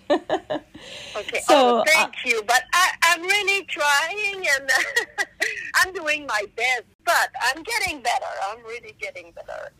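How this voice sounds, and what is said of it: Strong Quebec French accent. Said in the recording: “I speak more French, so I'm from Quebec, Canada, and in Quebec we speak more French than English, so that's why I have that big accent.”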